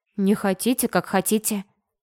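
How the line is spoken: Thoughtful mumble. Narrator (Russian): задумчиво пробормотала

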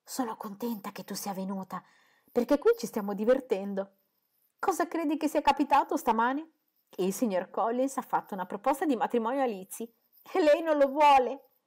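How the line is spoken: Half-whispered exclamation. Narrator (Italian): Lydia, che esclamò in mezzo bisbiglio

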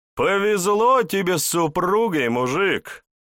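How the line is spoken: Loud laughter. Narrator (Russian): Снова расхохотался

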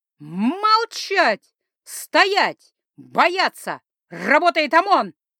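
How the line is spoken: Roaring. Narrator (Russian): Взревела

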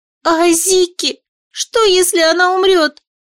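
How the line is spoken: Squeaky, sobbing. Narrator (Russian): пискнула Юми и всхлипнула

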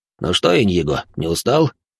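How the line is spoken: Tipsy inquiring voice. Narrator (Russian): хмельным голосом поинтересовался он

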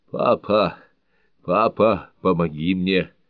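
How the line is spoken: Moaning. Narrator (Russian): стонала Белль

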